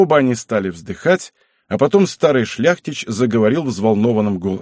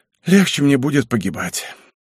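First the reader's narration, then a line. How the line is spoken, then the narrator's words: Relieved sigh. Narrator (Russian): Збышка вздохнул с большим облегчением и сказал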